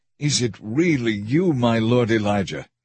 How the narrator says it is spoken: he asked

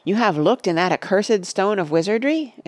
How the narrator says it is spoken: exclaimed Gimli, with fear and astonishment in his face

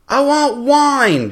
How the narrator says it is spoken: Johnny Razor yelled down the beach

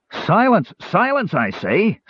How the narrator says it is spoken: Sturm roared

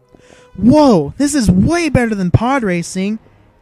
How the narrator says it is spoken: Anakin Skywalker shouted at R2-D2, grinning broadly

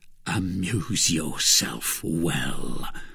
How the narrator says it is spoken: replied Bonacieux in a sepulchral tone

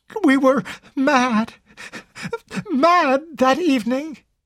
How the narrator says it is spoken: sobbed out brokenly

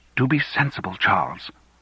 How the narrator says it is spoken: whispered Fiona

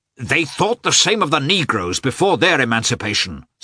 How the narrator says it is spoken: said Pestsov angrily

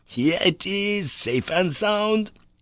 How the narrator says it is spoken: he cried with real joy

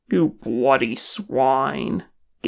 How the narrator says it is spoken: Gimli growled

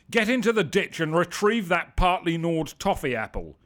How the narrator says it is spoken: shouted

